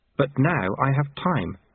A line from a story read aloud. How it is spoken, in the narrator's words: said Lobsang earnestly